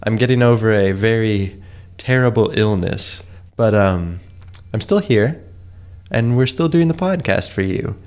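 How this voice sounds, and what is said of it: Strange-sounding sick voice. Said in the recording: “I've come down with a little illness. I'm a little sick today... my voice sounds a little strange”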